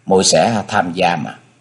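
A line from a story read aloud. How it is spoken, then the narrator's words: Quiet. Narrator (Vietnamese): cô nhỏ giọng nói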